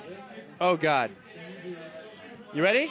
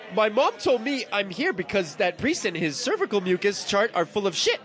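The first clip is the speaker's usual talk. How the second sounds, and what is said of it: Put-on Canadian accent. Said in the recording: “Canadian ... It's like the hardest accent”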